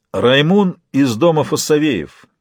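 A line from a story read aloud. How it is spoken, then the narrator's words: Solemn. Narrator (Russian): начал он торжественно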